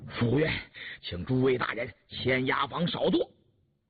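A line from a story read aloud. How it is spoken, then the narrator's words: Breathless, panting. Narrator (Chinese): 哥叉，喘吁吁地说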